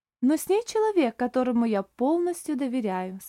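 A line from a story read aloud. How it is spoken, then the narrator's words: Calm. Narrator (Russian): спокойно сказал Оливер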